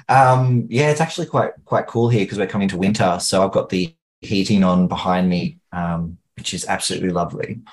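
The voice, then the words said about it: Australian accent. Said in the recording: “you're coming from Australia ... I'm not sure if the accent gives me away, but g'day, mates.”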